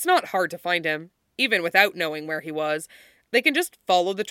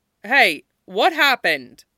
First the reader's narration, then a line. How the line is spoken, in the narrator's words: Mikhail shouts over to him from an opposite hallway